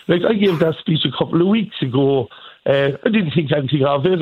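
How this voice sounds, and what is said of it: Irish Cork accent. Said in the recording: “great to hear the Cork accent ... I was so proud to listen to the Cork accent”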